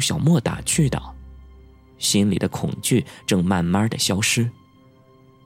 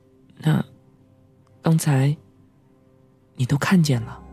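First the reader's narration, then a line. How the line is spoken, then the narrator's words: Calm, indifferent question. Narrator (Chinese): 淡淡的问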